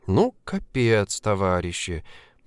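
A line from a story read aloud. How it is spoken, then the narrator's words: Muttered. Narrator (Russian): пробормотала Женечка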